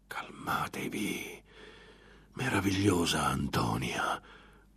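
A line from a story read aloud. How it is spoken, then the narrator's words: Whispering. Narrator (Italian): le sussurrò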